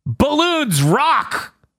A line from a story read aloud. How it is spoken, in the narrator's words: Ash yells